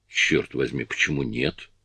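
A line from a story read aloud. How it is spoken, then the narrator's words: Plain. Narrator (Russian): сказал Фред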